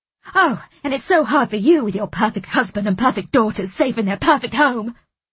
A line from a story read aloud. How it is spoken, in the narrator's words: Nicky gasped